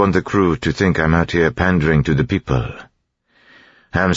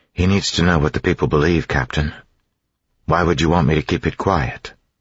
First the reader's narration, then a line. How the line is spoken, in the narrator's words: Demu sighed